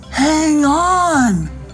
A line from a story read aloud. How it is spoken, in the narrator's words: called out Staroff and Despacer